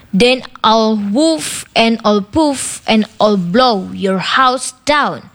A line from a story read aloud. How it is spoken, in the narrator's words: growled the wolf